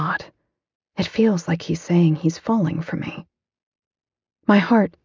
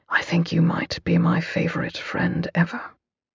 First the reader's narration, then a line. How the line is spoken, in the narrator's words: His tone is all vulnerability and true emotion as he whispers